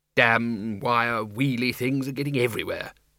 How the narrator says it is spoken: muttered

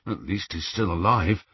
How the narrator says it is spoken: muttered Ron

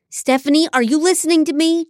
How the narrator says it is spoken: John shouted

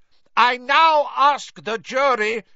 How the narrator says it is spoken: shouted Mr

